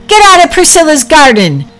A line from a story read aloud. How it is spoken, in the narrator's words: Packy shouting